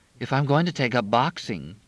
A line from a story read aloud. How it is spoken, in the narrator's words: Crystal said